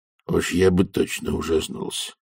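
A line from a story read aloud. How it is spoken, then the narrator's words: Muttering. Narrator (Russian): пробормотал Хьюилл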